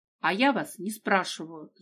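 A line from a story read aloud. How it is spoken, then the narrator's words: Angry reply. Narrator (Russian): зло ответила девушка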